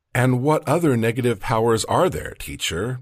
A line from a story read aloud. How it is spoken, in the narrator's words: Maria asked